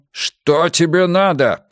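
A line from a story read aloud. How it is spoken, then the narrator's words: Growled. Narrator (Russian): прорычал Мунк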